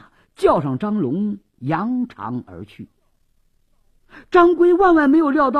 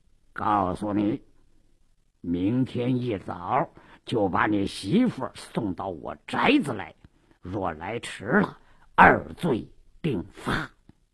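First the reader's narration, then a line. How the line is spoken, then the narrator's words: Lowered voice. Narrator (Chinese): 鲁斋郎压低了声音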